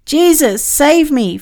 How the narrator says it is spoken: Father cried

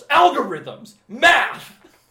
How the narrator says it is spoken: Stanley Tucci just yells

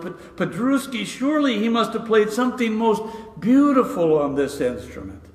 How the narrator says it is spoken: exclaimed the arrogant tourist

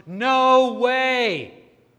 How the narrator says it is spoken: Jasmine yells at the top of her lungs

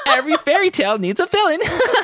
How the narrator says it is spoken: Cloaky said with a giggle

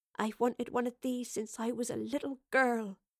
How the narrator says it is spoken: whispered in hushed tones

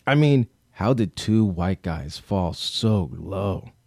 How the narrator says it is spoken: said, leaning into

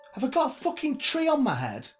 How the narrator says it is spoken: she spat

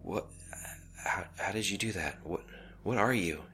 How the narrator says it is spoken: he stammered

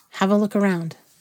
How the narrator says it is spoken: she said quietly, and smiled, though not the same as before

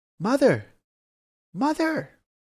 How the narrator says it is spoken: In ecstasy, he again cried out

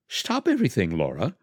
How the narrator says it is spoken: cried Jose in astonishment

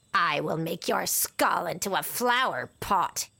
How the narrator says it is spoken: he hissed

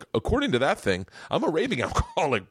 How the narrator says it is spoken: Bert said with a kind of distant chuckle

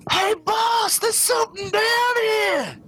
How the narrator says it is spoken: you hear him shout

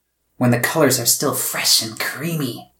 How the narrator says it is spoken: the blue goblin cackled

